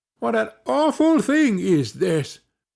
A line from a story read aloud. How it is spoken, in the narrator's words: cried they